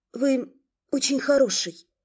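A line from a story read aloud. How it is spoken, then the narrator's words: Timid addition. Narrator (Russian): робко добавила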